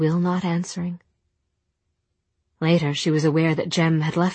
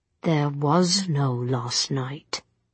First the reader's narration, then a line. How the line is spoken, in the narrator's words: he said through his teeth